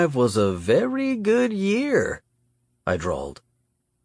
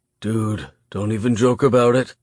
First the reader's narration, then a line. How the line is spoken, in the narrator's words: breathed